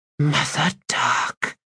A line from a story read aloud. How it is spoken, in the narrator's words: breathed Kedavis in horror